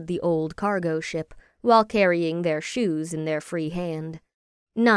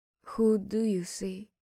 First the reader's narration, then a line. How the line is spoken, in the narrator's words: She asked softly